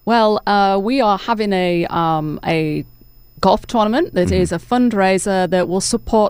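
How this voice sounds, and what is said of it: English accent. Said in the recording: “I love your accent... I'm originally from England... still have the accent... there's no southern twang”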